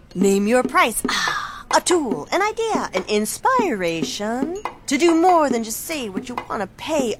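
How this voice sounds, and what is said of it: Beat poet voice. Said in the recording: “my impression of a beat poet”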